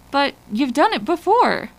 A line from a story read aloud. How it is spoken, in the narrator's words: Fiona sputtered